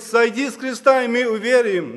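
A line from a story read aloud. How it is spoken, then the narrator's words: Crowd laughing and speaking. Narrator (Russian): И народ смеялся и говорит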